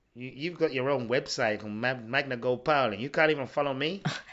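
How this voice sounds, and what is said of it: Put-on accent, sounds wrong. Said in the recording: “Was that the right accent? I don't know. That sounded wrong, that accent.”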